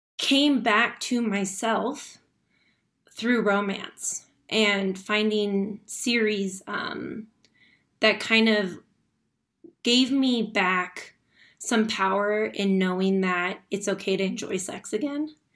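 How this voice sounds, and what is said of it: Emotional, cracking voice. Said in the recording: “my voice is cracking because I can talk about stuff. I'm totally okay, but it's still not that easy.”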